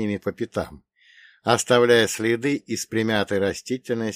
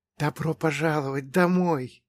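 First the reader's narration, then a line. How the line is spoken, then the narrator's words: Happy whisper. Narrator (Russian): прошептал мне дух, и в его голосе прозвучало настоящее счастье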